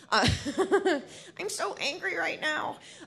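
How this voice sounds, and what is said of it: Bad angry Governor Snyder impression. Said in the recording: “my bad, bad Governor Snyder impersonation”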